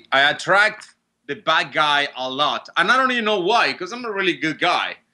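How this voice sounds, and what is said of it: Noticeable foreign accent. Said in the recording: “accent”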